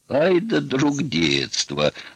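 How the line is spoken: Loud laughter. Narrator (Russian): расхохотался цыган

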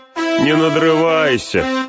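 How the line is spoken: Mocking shout. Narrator (Russian): насмешливо крикнул Мэри

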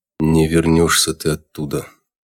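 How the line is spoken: Sigh, major. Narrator (Russian): вздохнул майор

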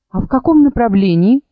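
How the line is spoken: Plain. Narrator (Russian): спросила Чарус

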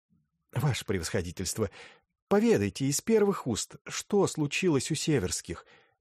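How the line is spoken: Pleading. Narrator (Russian): взмолилась Вера Алексеевна

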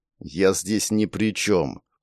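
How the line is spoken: Said through clenched teeth. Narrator (Russian): процедил сухарь

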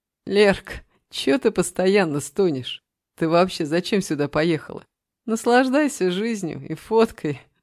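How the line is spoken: Laughing. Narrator (Russian): засмеялся Саша

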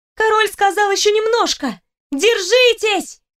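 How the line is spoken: Shouted. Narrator (Russian): крикнула

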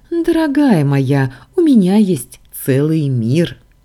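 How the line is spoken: Laughing. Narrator (Russian): рассмеялся Лоран

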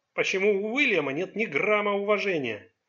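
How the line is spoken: Irritated question. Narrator (Russian): раздраженно спросил Чанг

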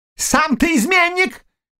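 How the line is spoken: Shout. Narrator (Russian): крикнула княгиня

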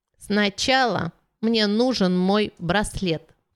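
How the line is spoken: Brittle childlike voice. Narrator (Russian): сказала она ломким детским голосом

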